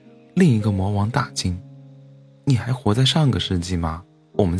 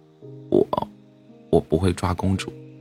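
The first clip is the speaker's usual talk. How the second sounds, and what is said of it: Quiet, soft-spoken voice. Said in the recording (Chinese): “小声开口”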